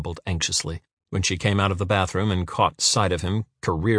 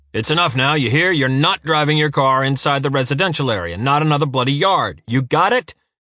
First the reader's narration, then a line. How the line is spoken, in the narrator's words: shouted Uwe in the distance